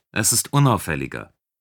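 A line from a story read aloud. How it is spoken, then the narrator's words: Plain. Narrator (German): antwortete Roden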